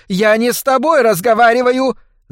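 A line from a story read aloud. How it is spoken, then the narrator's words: Furious shriek. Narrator (Russian): завизжала миссис Шейфер, и ее лицо налилось темным румянцем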